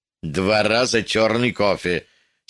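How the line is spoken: Angry order. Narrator (Russian): сердито распорядился Арнольд

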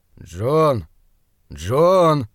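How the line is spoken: Sighing, gentle. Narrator (Russian): Доктор вздохнул и мягко сказал

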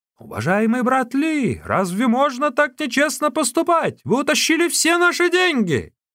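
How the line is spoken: Shouting group. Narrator (Russian): Его противники кричали

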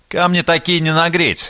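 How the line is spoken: Declaring. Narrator (Russian): заявил Либерий

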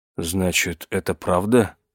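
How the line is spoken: Dazed mutter. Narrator (Russian): пробормотал он, ошалело

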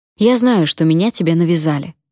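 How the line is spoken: Agitated snapping. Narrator (Russian): огрызнулась, поддавшись волнению

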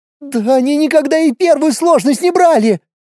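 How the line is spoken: Shouting woman. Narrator (Russian): Кричит женщина

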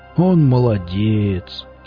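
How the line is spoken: Heavy drawn-out sigh. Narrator (Russian): Велес тяжело протяжно вздохнул

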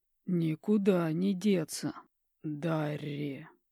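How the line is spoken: Hoarse wheeze. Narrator (Russian): Хрипит подушка

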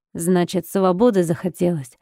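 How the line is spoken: Menacing question. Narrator (Russian): Пугающим тоном спросил он

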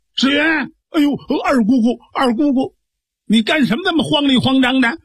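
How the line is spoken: Shouting. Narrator (Chinese): 秋葵喊了一嗓子

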